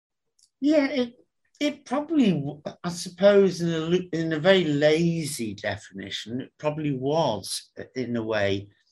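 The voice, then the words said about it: Middle-class, non-northern English accent. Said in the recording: “class me as middle class because of my accent. It was neither northern, working class or whatever.”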